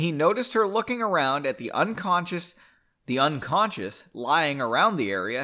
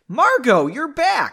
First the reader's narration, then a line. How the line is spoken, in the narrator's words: exclaimed at normal volume